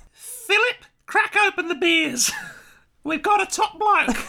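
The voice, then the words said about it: High-pitched posh woman, Australian accent. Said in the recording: “your impression of the Queen sounds like a Monty Python woman ... It's my impression of the Australian Queen ... she has to put on an accent ... just with a higher-pitched voice”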